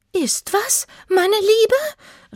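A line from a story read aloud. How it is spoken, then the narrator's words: Calling out. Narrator (German): rief ihre Schwester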